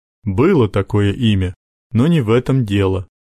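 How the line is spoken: Plain. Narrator (Russian): сказал папа

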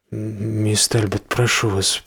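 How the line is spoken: Mumbling. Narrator (Russian): пробормотал он

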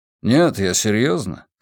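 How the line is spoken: Calm. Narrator (Russian): спокойно добавил Волк

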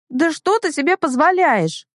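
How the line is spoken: Shrill squeal. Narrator (Russian): Взвизгиваю я

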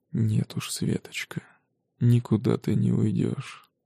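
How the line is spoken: Hoarse whisper. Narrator (Russian): хрипло шепчет Антон Борисович

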